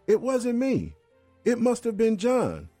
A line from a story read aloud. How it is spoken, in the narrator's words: Attempting to fend off further blows, Todd yelled